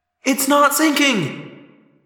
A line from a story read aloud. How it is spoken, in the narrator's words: Cassie cried